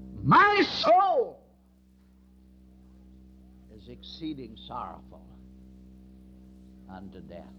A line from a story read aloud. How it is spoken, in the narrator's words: he cried out